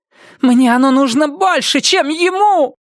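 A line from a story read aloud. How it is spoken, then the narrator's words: Wailing. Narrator (Russian): взвыла она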